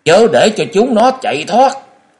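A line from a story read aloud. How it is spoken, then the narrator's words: Urgent loud shout. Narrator (Vietnamese): Tây Môn Lập Thiên vội thét lớn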